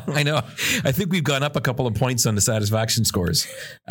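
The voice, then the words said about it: Noticeable accent. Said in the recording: “This show just got so much better because of the accent.”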